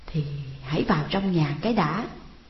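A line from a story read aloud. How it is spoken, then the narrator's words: Stammering, stalling reply. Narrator (Vietnamese): Trang ấp úng trả lời để kéo dài thời giờ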